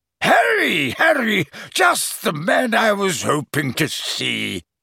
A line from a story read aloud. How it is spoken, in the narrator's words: boomed genially